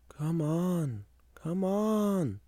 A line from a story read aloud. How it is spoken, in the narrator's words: he pleaded